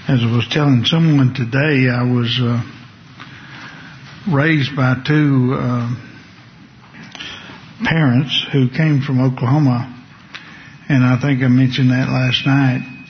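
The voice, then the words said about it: Distinct regional brogue accent. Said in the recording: “as you can tell, I have a distinct brogue, I guess you would call it”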